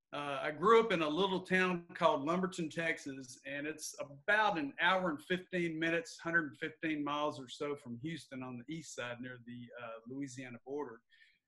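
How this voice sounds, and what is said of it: Southeast Texas country accent. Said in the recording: “I'm a country boy, as you could tell in my voice.”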